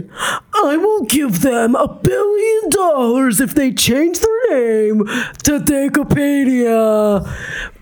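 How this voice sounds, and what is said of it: Imitates another person's voice. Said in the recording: “I don't know what Musk even sounds like. I'm just going to do my best impression.”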